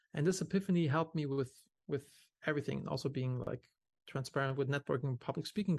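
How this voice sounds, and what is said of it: German accent. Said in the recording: “do they think I have a weird German accent?”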